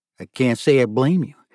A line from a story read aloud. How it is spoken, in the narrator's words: Thierry said quietly